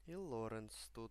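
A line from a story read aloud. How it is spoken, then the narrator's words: Muttered. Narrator (Russian): пробормотала моя рабыня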